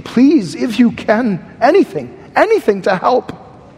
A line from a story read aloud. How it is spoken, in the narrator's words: the man was pleading